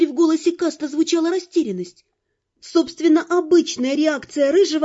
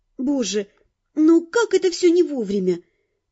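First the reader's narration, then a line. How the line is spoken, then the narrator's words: Helpless sigh, near groan. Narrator (Russian): Едва не застонав от собственного бессилия, я вздохнула и повторила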